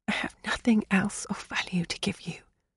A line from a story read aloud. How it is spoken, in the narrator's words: whispered